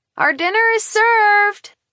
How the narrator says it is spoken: I yell

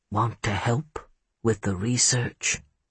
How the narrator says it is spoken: He whispered in a voice like smoke over satin

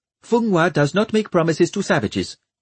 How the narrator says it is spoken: snapped the Kerolan girl

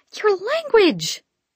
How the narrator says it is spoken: she yelled

